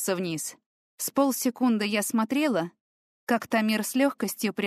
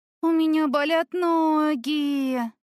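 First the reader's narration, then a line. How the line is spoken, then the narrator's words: Groan. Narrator (Russian): простонала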